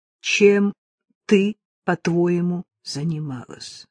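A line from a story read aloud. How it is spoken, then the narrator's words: Plain. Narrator (Russian): спросил ее Линли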